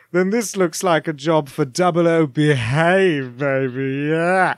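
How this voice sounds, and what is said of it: Austin Powers impression. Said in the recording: “I'll do an Austin Powers impression”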